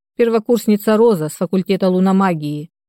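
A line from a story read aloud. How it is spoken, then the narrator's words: Dry. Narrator (Russian): сухо кивнул Денис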